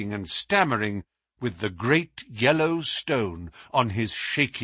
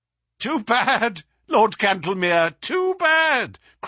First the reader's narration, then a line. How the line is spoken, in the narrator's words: cried Holmes